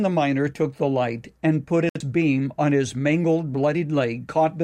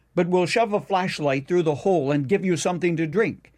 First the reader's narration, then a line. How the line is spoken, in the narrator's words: yelled the rescuers